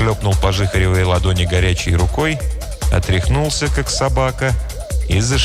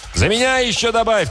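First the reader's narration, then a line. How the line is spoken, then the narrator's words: Shouting after someone. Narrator (Russian): крикнул вслед Мутила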